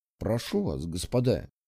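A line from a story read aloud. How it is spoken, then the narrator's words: Quiet. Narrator (Russian): тихо сказал он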